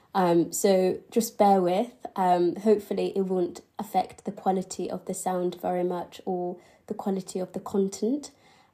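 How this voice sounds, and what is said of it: Slightly nasal, congested voice. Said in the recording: “Don't mind my voice, I had the flu on Sunday, and I'm still sort of getting over it, so my voice is a little bit nasally.”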